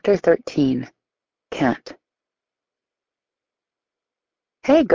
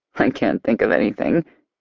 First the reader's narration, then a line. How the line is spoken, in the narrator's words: Max says with a chuckle